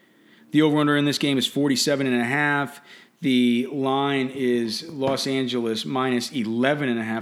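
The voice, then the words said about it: Crackly, strained voice. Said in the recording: “As you can tell, I've been yelling at people all day ... My voice is too crackly”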